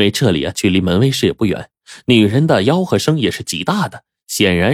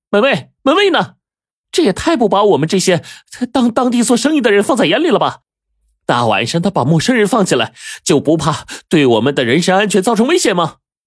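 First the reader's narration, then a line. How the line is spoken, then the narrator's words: Loud shout. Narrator (Chinese): 他便大喊道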